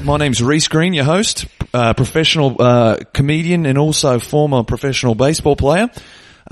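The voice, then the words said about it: Put-on Australian accent. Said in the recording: “I don't know how long I should go with the Australian accent. Maybe I'll just dip in and out of it”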